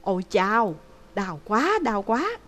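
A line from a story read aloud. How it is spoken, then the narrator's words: Panicked cry of pain. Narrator (Vietnamese): Hàn Phong cuống quýt kêu lên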